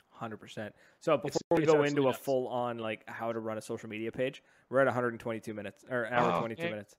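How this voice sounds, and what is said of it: Hoarse, strained voice. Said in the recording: “I'm getting very hoarse with my throat. I'm actually having a hard time talking.”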